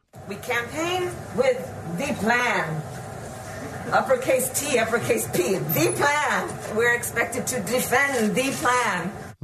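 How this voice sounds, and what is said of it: Bad put-on French accent. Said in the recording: “she decided to talk to the press with a French accent ... pull out a French accent ... It's a bad French accent”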